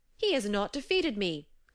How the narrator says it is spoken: cried Loki

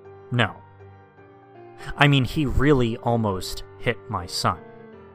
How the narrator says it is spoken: the man said more sternly

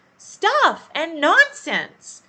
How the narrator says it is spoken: Alice said loudly

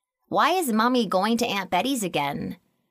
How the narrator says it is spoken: Danny asked

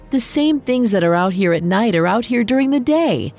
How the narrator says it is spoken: Lycius laughed and yelled

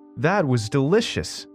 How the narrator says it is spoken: she exclaimed

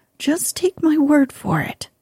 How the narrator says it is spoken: replied the horse sadly

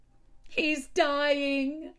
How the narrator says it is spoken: shouted

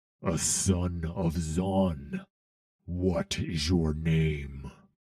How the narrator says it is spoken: He growled

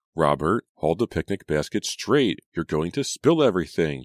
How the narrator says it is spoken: Julia cried

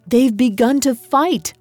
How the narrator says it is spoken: I cried

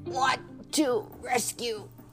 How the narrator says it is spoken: choked

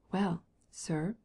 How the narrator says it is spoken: whispered the Swiss, shaking his head

